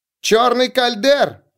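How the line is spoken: Shouted. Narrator (Russian): крикнула она

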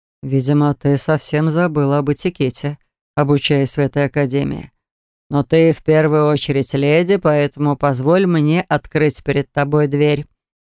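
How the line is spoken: Fairly soft. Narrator (Russian): проговорил он достаточно мягко

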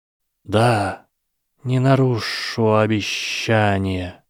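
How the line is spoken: Hissed. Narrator (Russian): прошипел Гарри

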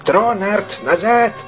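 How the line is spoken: Shouting. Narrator (Russian): выкрикнул он

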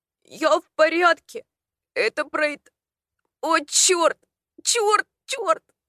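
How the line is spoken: Loud prolonged groan. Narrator (Russian): Он застонал так громко и протяжно

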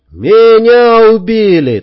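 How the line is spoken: Yelled back. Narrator (Russian): также заорал в ответ

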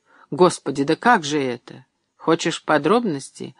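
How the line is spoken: Cold mocking guest. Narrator (Russian): холодно усмехнулся гость

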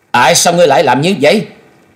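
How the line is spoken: Glaring loud shout. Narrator (Vietnamese): Thôi Dân trừng trừng quát lớn

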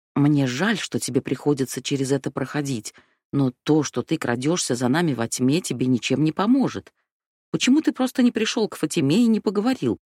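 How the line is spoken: Soft. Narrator (Russian): мягко сказала Сети

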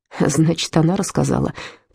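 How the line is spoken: Muttered. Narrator (Russian): пробормотал Отто

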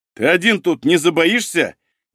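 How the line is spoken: Sarcastic. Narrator (Russian): язвительно спросил он у Берегового

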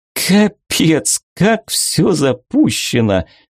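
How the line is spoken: Girl laughing. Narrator (Russian): засмеялась попаданка

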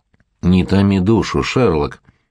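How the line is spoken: Sea serpent grumbling. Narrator (Russian): проворчал морской змей

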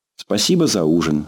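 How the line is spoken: Plain. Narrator (Russian): сказала Таня

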